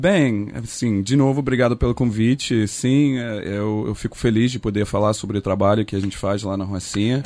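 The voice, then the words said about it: Slight American accent in Portuguese. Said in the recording (Portuguese): “o sotaque do ... não é o sotaque do carioca nativo, né? Ele tem um pouquinho de sotaque de americano”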